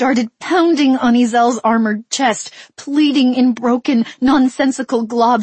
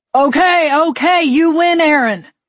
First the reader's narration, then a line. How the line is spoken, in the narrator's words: Ezel shouted